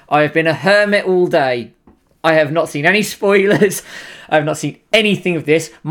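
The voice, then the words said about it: Excited, hyped-up voice. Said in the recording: “You can probably hear it in my voice, I am hyped to hell for this”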